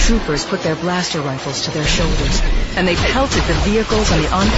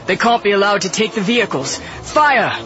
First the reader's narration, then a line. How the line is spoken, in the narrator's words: Brendel shouted